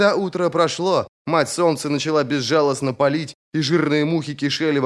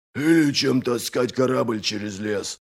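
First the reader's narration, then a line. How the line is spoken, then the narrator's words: Grumbling. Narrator (Russian): проворчал Доздувой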